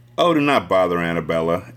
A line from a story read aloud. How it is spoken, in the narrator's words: Anne sighed